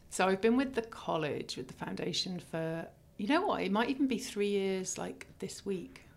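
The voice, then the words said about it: English accent. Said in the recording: “is it English accent? It makes it sound so ... proper.”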